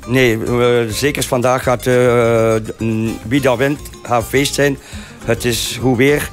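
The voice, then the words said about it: Spanish speaker with Ghent accent. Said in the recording (Dutch): “een echte volbloed Spanjaard, maar ook met een heerlijk Gents accent.”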